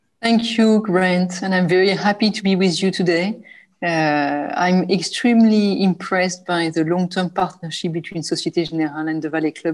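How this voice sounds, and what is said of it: French-accented English. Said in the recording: “As you can tell from my accent, I'm French”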